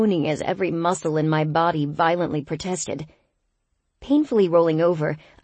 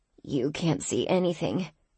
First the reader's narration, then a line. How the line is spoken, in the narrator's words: I mumbled, burrowing into my pillow